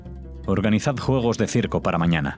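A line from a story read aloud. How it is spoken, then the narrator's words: Plain. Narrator (Spanish): dijo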